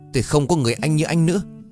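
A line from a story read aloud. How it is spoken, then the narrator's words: Shouted. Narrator (Vietnamese): Tôi hét vào mặt anh lần đầu tiên trong đời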